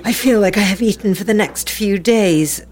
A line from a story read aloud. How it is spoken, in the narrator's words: groaned Rodrigo